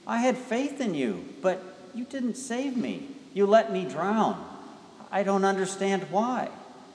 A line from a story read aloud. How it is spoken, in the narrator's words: he exclaimed